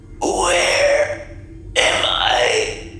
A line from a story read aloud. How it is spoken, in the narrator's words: Agnes gasped, her throat trembling with the strain of vocalizing